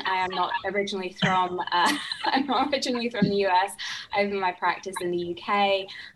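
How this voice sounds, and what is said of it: Non-American accent. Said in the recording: “as you can tell from my accent”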